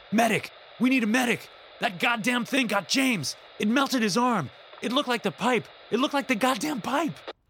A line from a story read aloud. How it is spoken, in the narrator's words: Sable was shouting